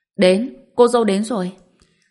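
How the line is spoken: Shout. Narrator (Vietnamese): không biết ai đã hét lên

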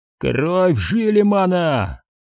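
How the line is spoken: Roaring. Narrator (Russian): взревел Саларион

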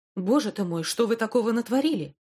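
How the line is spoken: Exclamation. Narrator (Russian): воскликнул Лео

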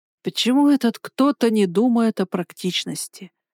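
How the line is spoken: Grumbling. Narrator (Russian): ворчала я

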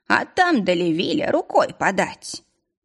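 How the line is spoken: Cheerful announcement. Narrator (Russian): бодро сообщил Горн

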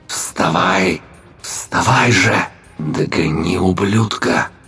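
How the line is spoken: Malicious whisper. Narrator (Russian): шепот теней, но призыв сочился злобой

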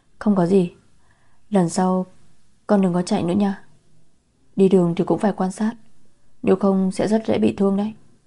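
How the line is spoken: Soft, gentle, smiling. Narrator (Vietnamese): Cô khẽ cười, khẽ nói

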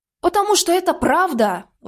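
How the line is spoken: Exclaiming. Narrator (Russian): воскликнула она

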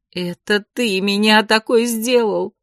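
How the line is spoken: Sobbing woman. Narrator (Russian): всхлипнула женщина

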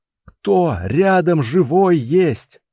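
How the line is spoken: Strained shout. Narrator (Russian): натужно выкрикнул он, пытаясь подняться

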